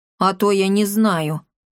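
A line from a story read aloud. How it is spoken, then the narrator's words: Chuckling, chubby man. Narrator (Russian): хмыкнул толстячок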